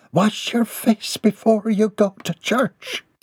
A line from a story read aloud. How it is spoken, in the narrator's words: muttered as she huffed along